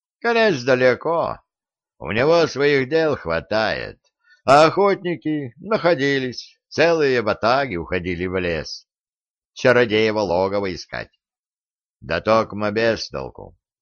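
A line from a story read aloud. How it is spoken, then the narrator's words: Grim. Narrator (Russian): мрачно произнес Глеб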